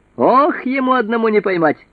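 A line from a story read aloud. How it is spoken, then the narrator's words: Shouted. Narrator (Russian): закричал брат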